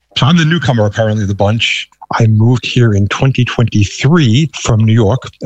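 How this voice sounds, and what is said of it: Thick New York accent. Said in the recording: “I still have a very thick New York accent”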